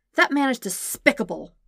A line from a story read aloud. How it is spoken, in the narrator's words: she spat